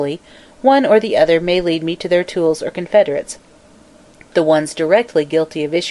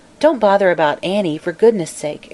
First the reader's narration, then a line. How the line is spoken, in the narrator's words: exclaimed Mary Louise